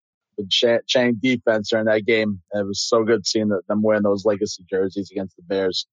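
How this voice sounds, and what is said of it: Strained, worn-out voice. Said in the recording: “sorry for my voice too. I was at the Giants game the other day. ... That means you put your voice to work.”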